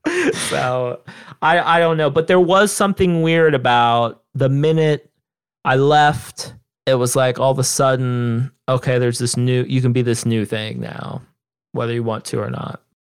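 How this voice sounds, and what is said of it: Southern Ohio twang. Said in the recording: “twang and my voice and they'll think it's a Texas accent when it's actually a Southern Ohio accent”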